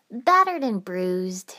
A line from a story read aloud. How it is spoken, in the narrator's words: she replied cheerfully